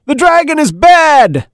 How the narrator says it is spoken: a small boy yelled out from the audience

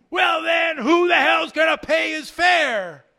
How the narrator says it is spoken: The driver, noticeably angry now, yelled back

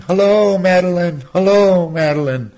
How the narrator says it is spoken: they would shout out in the morning

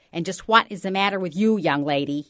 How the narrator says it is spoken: He bellowed

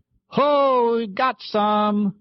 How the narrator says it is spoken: Morgan shouted

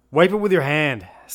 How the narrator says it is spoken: snapped C

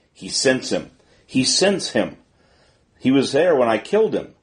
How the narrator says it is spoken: The two women, terrified, began to wail in concert with the dog

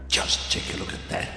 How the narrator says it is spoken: he hissed

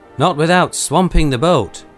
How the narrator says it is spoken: said he

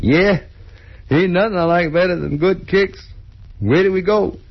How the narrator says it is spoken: Dean giggling maniacally

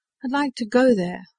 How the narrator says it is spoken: the boy insisted sullenly

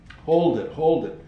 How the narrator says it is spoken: Chico boomed out over the hubbub

